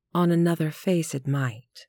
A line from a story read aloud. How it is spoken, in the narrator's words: answered her spouse